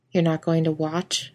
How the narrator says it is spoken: Ellen asked dryly

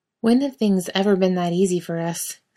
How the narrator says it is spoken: Sam asks wearily

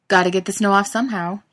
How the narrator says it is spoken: yells

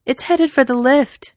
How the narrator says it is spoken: Capable yells

